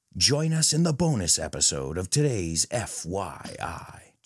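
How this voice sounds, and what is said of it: Imitated radio announcer voice. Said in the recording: “imitate me in that radio voice I put on”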